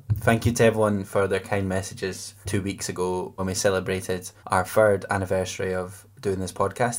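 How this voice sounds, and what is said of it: Congested, stuffy voice. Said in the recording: “I'm a little bit choked up with the cold”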